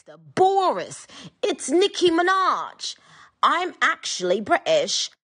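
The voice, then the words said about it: Put-on British accent. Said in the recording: “using a British accent”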